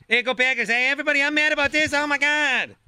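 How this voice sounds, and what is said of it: Exaggerated impression of his own voice. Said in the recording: “I impersonate myself all the time.”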